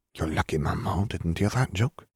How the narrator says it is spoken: Fleur whispered in Gabby's ear

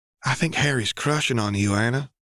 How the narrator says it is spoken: Tallulah whispered in Anna's ear

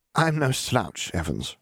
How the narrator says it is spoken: she sighed

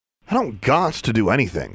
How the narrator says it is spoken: she snapped

